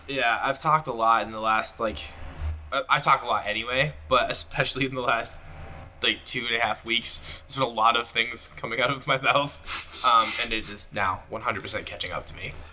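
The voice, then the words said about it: Hoarse, strained voice. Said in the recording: “Sorry, I'm losing my voice, and my allergies are hitting, so I'm going to cough.”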